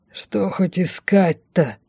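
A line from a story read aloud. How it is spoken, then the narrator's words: Grumbled. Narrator (Russian): проворчал один из поводырей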